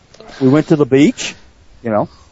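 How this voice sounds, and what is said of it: Brisbane accent, rising question-like inflection. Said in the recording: “most of your sentences make it sound like it's a question ... go up on the inflection and the last word ... That's a Brisbane accent, actually.”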